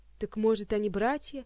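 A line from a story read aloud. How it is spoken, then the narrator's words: Grim smirk. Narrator (Russian): мрачно ухмыльнулся Кантер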